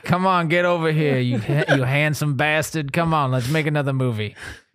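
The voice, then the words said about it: Put-on Boston accent. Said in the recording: “this is my Bostonian.”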